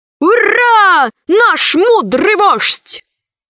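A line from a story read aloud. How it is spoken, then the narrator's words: Crowd shouting. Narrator (Russian): закричали пришельцы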